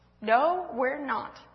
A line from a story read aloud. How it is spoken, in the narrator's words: said Louise